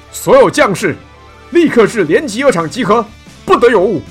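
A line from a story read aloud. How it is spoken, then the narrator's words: Loud shouting. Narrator (Chinese): 被称为中护军的男子高声的吆喝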